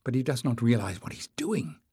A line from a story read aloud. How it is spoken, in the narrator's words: muttered Leif